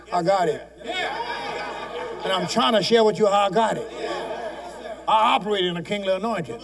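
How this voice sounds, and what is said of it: Shouting preacher. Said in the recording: “You know the reason I'm shouting?”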